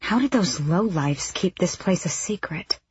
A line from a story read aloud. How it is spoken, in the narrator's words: Aelin breathed